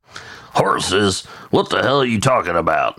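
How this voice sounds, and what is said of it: Imitates a character's voice. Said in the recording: “that was Dawson that said that. I don't know if you couldn't tell from that impression.”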